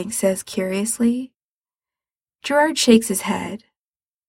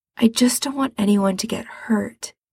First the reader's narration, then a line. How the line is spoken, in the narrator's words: he says softly